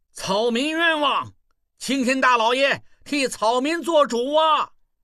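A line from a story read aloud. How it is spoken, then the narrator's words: Shouting. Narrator (Chinese): 望柏 大喊道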